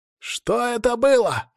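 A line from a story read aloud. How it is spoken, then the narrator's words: Group yelling. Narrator (Russian): орали Решалвы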